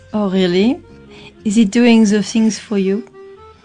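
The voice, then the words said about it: French accent. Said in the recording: “I love your Frenchy accent ... it's lovely, that French voice ... It's erotic is what it is.”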